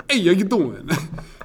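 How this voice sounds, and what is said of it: Exaggerated Brooklyn accent. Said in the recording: “I used to try to do just a Brooklyn accent all the time ... atrocious”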